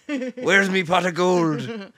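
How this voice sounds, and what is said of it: Put-on leprechaun Irish accent. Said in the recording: “I speak leprechaun.”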